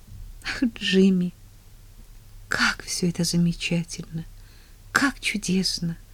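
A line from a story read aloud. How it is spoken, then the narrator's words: Whispered tenderly. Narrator (Russian): нежно шепнула она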